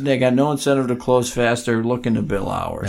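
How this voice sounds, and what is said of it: Italian accent coming through. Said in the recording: “Look at the Italiano's coming out of you... A little more of an accent.”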